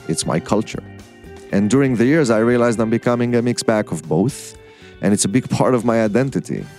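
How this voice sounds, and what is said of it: Israeli-accented English. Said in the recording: “you've noticed from my first sentence that I have an accent. It's something that immediately stands out, almost to signal that I'm not from here ... I'm also Israeli”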